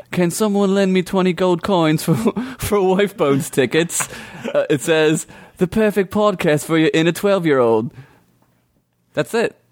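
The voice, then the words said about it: Convincing put-on British accent. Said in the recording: “Your accent was fucking right on ... are you from the UK? ... that was really good ... It's authentic.”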